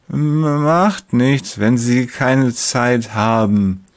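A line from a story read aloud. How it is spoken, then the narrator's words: Slurred heavy-tongued speech. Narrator (German): lallt er mit seiner neuen schweren Zunge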